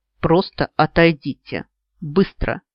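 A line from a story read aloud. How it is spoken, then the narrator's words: Growling. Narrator (Russian): Последние слова он буквально прорычал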